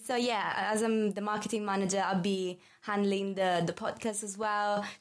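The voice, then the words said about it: Italian accent. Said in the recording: “As you can tell from my accent, I'm from Italy.”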